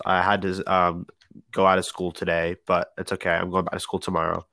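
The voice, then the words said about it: Sick, stuffy-nosed voice. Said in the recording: “I sound a little sick ... I do have a stuffy nose”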